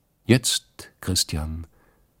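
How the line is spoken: Calm. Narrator (German): sagte die Stiefel Katrin ruhig

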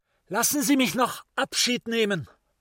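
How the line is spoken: Called out. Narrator (German): Der Meister rief es dem vorausreitenden Assassillo zu

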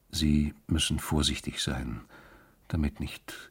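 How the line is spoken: Low voice. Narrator (German): sagte er mit leiser Stimme

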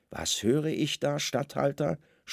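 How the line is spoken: Calm proud. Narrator (German): sprach Kaiphas ruhig und stolz

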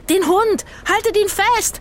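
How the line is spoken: Shouting across square. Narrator (German): schrie Rufus über den Platz

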